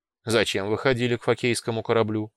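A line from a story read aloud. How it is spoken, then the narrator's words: Dry question. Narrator (Russian): сухо спросил Амбон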